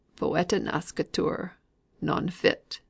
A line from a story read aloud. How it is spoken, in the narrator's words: murmured Mr